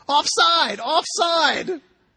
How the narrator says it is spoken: Nick Ferguson leaping up and down and shouting

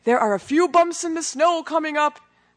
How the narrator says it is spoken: Brad yell to me

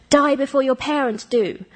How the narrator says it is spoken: forced her to shout

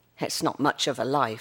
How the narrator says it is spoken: she said

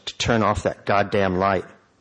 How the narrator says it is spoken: she croaked

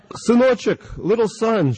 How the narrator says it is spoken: she shouted

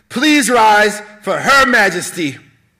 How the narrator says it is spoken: Wright screamed into the air

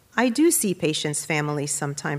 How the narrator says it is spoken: said

